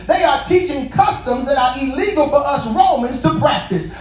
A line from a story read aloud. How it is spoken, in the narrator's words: They shouted to the city officials